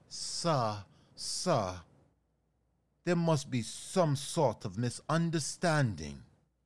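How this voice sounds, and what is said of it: Put-on formal accent. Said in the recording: “you can lose that accent”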